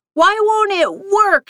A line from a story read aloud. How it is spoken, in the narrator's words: shouted